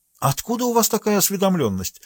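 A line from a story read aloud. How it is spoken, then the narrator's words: Exclaimed, finding her voice. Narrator (Russian): воскликнула маркиза, обретая дар слова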